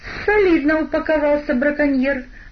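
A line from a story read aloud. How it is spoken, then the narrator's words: Exclaiming. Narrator (Russian): воскликнул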